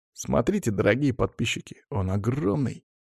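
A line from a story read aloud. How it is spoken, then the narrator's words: Boy speaking quietly. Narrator (Russian): тихо проговаривал пацан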